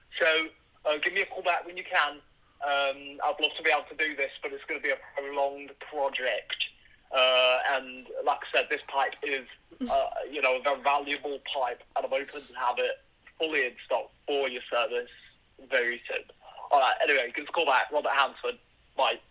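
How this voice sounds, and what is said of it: Inconsistent put-on Birmingham accent. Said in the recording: “the accent went in and out, and a couple times it changed ... He's from Birmingham ... I really wanted to do that accent”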